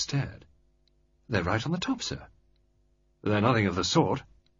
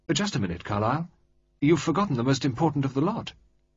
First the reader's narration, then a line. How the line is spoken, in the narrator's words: Lord Mayfield said sharply